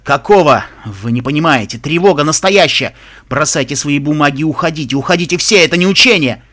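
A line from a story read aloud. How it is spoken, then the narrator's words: Shouting for all to hear. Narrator (Russian): Последние слова он прокричал, чтобы его услышали все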